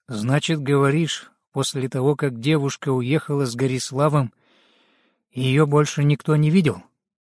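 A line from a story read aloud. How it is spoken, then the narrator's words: Deep sigh. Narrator (Russian): глубоко вздохнул и сказал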